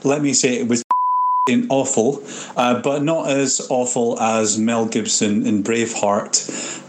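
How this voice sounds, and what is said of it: Scottish accent. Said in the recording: “from Scotland here.”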